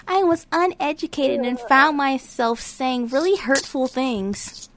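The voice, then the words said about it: Imitates another person's voice. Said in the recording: “Why you do the voice? ... that's not his voice.”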